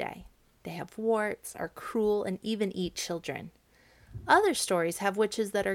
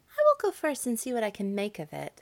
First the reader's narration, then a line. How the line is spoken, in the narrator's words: said the younger sister ever so cheerfully